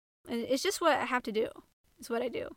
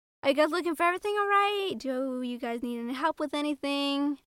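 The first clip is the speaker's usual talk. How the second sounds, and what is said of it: Upbeat customer-service voice. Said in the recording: “putting on my retail voice”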